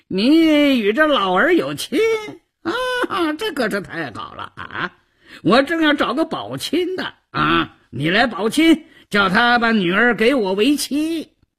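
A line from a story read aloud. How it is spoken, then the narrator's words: Leering, wheedling. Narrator (Chinese): 赵都巡嬉皮笑脸的胡搅蛮缠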